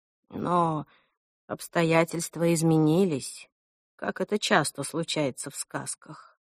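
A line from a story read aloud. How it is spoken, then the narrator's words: Sighed. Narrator (Russian): вздохнул Ленард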